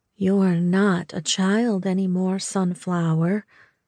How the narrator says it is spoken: she said, her voice soothing

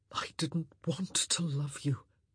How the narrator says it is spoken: Antony whispered

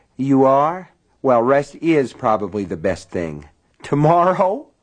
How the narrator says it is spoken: Polly laughed

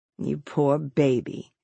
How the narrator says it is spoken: she murmured

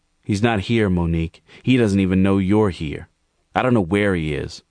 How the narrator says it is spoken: replied Gerald curtly

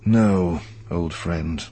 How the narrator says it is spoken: Kenobi said with a sigh

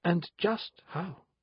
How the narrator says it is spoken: asked Benedict gently

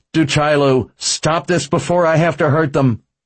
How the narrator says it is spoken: Yelling

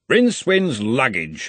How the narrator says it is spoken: he growled

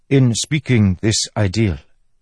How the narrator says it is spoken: Ki said

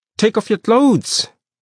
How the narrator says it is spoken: Mpanzane yelled at me

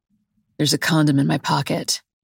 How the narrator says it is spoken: he mumbles

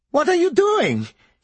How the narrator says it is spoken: he wailed

